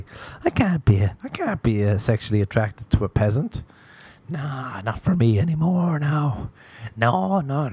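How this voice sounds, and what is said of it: Silly put-on voice. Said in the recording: “I was doing a stupid voice”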